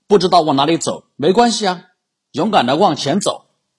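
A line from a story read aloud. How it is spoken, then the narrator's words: Shouting. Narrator (Chinese): 直接朝他吼道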